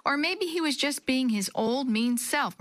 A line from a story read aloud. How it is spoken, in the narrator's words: Maria said loudly